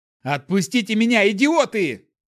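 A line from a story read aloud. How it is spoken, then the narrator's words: Yelling while struggling. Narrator (Russian): заорал я, задергавшись в путах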